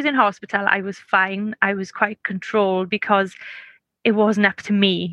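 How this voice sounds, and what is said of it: Noticeable non-American accent. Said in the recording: “your accent just made it fantastic... I hate my accent... I'm trying to use American words”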